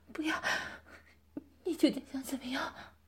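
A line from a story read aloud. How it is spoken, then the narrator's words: Aunt, weak pleading. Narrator (Chinese): 姨妈勉强抬头，转过来望着我，软弱地哀求道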